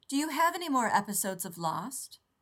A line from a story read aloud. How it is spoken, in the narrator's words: Taylor said loudly